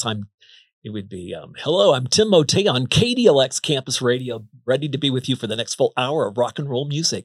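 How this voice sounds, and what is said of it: Radio DJ announcer voice. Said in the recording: “the radio DJ voice”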